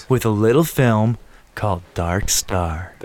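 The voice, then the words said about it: Put-on radio announcer voice. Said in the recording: “my good radio voice ... That was terrible.”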